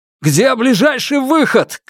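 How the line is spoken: Shout over someone. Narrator (Russian): крикнул через голову

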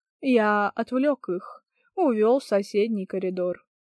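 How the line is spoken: Quiet ghostly voice. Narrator (Russian): призрак негромко сказал

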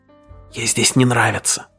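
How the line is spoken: Whisper. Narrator (Russian): прошептал Грегор

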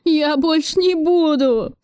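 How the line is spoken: Forced out through sobs. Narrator (Russian): Судорожно всхлипывая, выдавил из себя Федоркин

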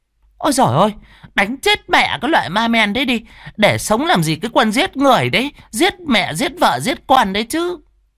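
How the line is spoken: Shrill shrewish woman crying. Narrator (Vietnamese): mụ mơ nổi tiếng chô ngoa nhất làng kêu lên

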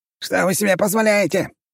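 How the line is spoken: Indignant yelling. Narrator (Russian): вопил Налимов, когда его посадили в общую камеру с остальным сбродом

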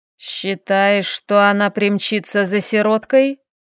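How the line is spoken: Thoughtful drawl, old woman. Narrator (Russian): задумчиво протянула старая женщина

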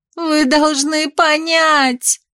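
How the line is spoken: Shouting. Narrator (Russian): кричала Микаэла

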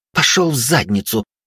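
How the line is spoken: Nervous snap. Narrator (Russian): нервно огрызнулась Югай

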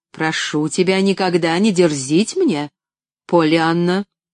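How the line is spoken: Dry, curt tone. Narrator (Russian): Сухо проговорила

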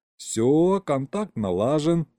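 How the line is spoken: Laughing. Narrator (Russian): засмеялся я

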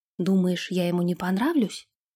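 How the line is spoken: Whisper. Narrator (Russian): прошептала она

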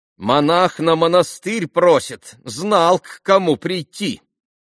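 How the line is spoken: Loud young woman. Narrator (Russian): Громко проговорила девица

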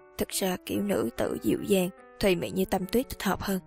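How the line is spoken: Muttering. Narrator (Vietnamese): lầm bầm nói

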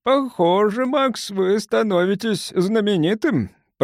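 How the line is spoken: Booming, droning. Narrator (Russian): прогудел профессор Лэндж

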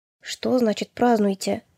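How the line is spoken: Quiet question. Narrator (Russian): тихо спросил он

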